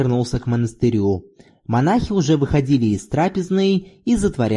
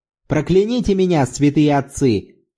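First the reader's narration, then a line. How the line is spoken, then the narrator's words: Shout. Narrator (Russian): крикнул Зорбас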